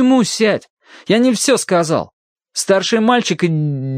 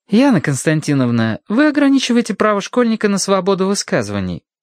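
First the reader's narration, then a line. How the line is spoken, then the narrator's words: Innocent remark. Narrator (Russian): невинным голосом заметила Зинаида Ивановна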